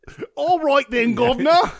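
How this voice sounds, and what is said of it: Put-on Cockney accent. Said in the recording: “with an accent ... I put the cock in Cockney?”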